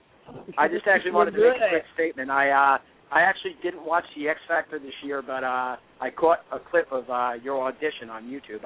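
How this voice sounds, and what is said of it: New Jersey accent. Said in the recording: “I love your accent. ... I got a Jersey accent. I'm from northern New Jersey.”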